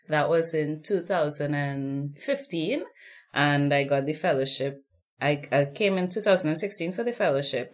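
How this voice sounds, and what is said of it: Speaks with a noticeable accent. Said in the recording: “not just the gorgeous accent”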